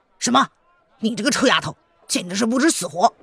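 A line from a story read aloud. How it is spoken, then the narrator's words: Furious. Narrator (Chinese): 恶仆闻言大怒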